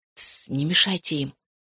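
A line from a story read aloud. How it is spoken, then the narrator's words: Whispered. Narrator (Russian): зашептал я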